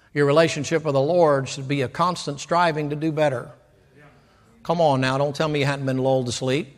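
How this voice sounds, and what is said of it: Preacher yelling. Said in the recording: “I am yelling right now.”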